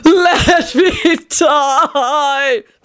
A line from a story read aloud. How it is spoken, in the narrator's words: Tony wailed in anguish